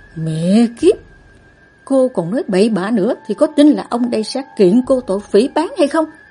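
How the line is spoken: Growling. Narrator (Vietnamese): Anh ta gầm gừ

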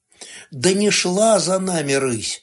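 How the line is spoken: Grumbling. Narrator (Russian): проворчала

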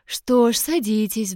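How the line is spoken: Sighing. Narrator (Russian): вздохнула женщина

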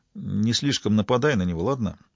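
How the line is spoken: Quiet. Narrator (Russian): Янг добавил тихо

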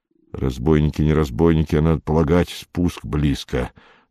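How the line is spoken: Whispered. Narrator (Russian): зашептал Иван Иванович

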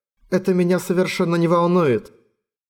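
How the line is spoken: Muffled voice. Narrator (Russian): сказала она, и голос её прозвучал глухо, потому что лицом она уткнулась ему в плечо

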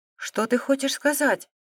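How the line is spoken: Frightened blurt. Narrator (Russian): испуганно выпалила Вертейка

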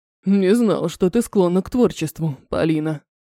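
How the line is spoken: Deep booming voice. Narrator (Russian): пробасил Махина

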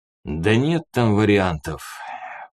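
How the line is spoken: Tired, dismissive. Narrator (Russian): кубанец устало отмахнулся

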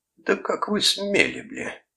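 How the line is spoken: Furious hiss. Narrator (Russian): прошипел Саймон Кресс

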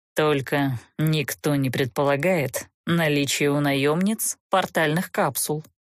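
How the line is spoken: Grim admission. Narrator (Russian): мрачно признался граф

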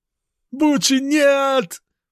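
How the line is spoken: Shout then cursing. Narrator (Russian): прокричал парень Сафра и взорвался бранью

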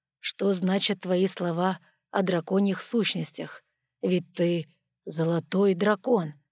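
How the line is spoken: Plain. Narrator (Russian): сказала хранительница

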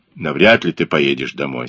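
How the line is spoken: Even, level voice. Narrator (Russian): сказал Блек тем же ровным голосом

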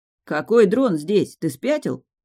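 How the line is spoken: Growl. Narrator (Russian): рыкнул

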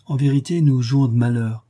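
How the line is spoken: Vexed exclamation. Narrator (French): s'écrie-t-elle dépitée

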